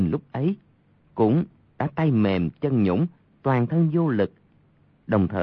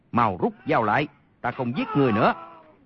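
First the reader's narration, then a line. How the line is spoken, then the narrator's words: Shaken loud shout. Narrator (Vietnamese): Y qua cơn kinh hoàng, quát lớn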